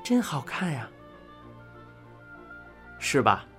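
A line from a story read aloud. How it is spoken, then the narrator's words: Admiring exclamation. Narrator (Chinese): 情不自禁的感叹道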